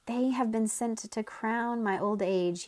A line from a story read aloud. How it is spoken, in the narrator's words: he cried